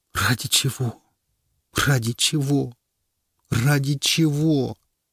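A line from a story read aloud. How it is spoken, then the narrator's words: Tearful relentless repetition. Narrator (Russian): Он неустанно твердил сквозь слезы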